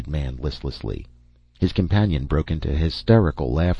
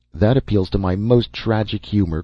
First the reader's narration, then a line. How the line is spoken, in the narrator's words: cried the man